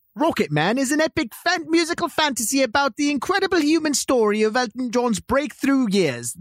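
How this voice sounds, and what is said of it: Attempted British accent, not very good. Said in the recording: “do it in a British accent ... I don't have a good British accent, but I'll try.”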